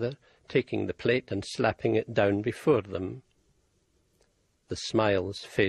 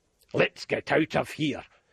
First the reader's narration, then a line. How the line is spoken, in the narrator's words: rasped Uncle Sam